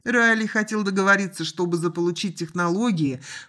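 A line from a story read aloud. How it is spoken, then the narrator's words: Snorting. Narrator (Russian): хмыкнул Арнольд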